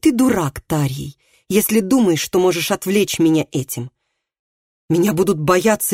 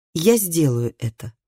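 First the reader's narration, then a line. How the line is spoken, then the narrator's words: Calm reply. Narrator (Russian): спокойно ответил Тарий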